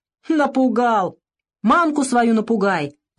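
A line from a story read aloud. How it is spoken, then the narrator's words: Shouting. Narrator (Russian): закричал мастер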